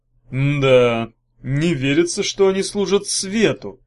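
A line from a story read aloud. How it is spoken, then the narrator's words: Drawling. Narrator (Russian): протянул Багров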